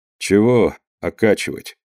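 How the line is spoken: Quiet speech. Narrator (Russian): сказал он негромко

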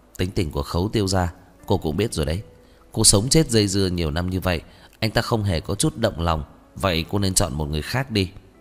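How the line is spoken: Harsh stressed voice. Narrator (Vietnamese): Thương Chủ Ý gằn giọng

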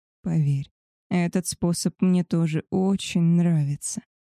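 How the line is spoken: Hoarse rasp. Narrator (Russian): прохрипел Альфа

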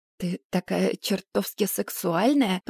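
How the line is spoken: Hoarse moan. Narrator (Russian): простонал он хриплым голосом

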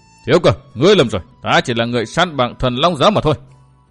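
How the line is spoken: Roaring shout. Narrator (Vietnamese): Vũ Vân gầm lên như thét

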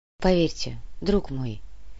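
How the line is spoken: Soft, elderly cleric. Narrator (Russian): мягко произнес митрополит

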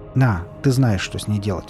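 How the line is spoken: Plain. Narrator (Russian): сказал я

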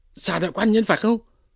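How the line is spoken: Hurried exclamation. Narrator (Vietnamese): Lý Quỳ vội kêu lên

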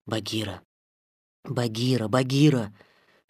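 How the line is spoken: Boy's insistent whisper. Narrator (Russian): шептал мальчик настойчиво

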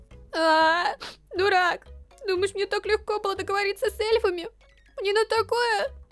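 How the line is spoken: Sobbing. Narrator (Russian): Она всхлипнула

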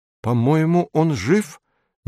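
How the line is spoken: Uncertain. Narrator (Russian): неуверенно говорит Эдик

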